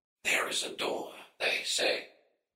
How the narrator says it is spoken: whispered

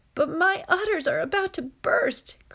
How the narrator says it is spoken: cried Tess

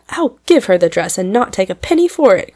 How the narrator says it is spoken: cried Fan, flushing up with mingled anger towards Trix and gratitude toward Belle

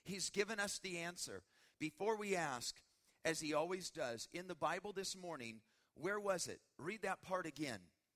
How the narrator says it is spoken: Betsy said excitedly

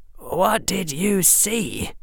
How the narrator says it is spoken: Harry asked Seamus in a low voice

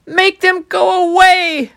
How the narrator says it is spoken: Pharaoh screamed

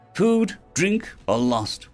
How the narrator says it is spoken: Cal asked

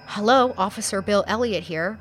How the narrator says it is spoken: answered

